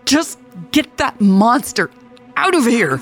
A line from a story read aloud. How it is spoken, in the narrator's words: yelled frantically